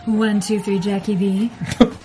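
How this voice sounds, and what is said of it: Sultry radio announcer voice. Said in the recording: “That's my new radio voice. ... Her sultry voice.”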